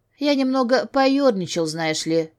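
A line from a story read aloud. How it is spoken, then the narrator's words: Amused snort. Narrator (Russian): хмыкнул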